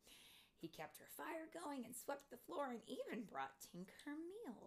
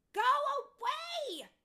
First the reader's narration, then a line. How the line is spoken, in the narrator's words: She yelled at Terrence